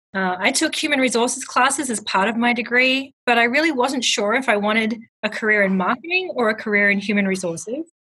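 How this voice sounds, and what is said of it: Australian accent. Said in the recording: “an Aussie working in the U.S. ... I think just the accent alone could keep me engaged”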